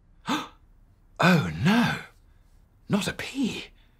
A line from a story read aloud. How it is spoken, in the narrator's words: everyone gasped